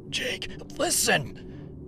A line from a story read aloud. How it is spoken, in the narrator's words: I gasped